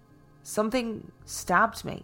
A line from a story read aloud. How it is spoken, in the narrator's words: he stammered